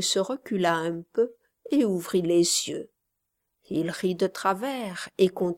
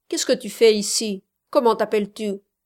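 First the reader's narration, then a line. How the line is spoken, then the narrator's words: Harsher. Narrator (French): dit plus durement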